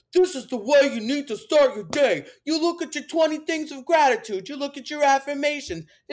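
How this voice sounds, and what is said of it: Put-on Italian New Jersey accent. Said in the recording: “He didn't have an accent like this. I don't know why I'm making him Italian from New Jersey.”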